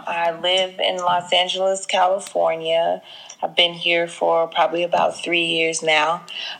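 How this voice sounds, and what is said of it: Southern US accent with twang. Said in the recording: “if you can hear, I'm from Jackson, Mississippi ... from the dirty South ... my accent is a little got a little twang to it”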